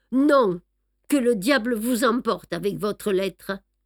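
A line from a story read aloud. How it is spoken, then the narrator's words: Forced firm voice. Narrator (French): M'efforçant de parler d'une voix ferme, je répondis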